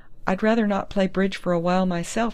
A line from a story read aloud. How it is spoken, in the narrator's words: Dundee laughed